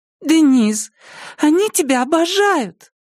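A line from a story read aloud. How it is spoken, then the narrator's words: Squeaky. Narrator (Russian): пискнула Робин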